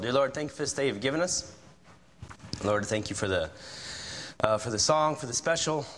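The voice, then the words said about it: Hoarse, strained voice. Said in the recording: “I lost my voice yesterday for some reason. I am not going through puberty again. My voice is not changing. It's just, this is what you get today”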